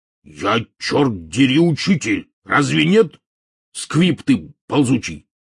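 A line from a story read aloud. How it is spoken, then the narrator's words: Flaring angry bark. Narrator (Russian): мгновенно вспыхнув, рявкнул Хагрид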